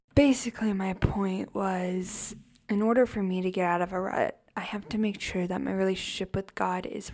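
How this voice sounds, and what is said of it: Speaking very quietly. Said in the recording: “why I'm talking super quietly”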